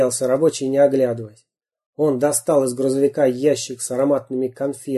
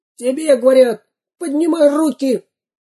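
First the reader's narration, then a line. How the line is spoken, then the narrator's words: Squeaky. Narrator (Russian): пискнул второй грабитель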